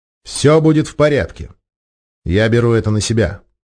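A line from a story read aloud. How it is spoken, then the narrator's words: Calm, confident. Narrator (Russian): спокойно произнес он уверенным тоном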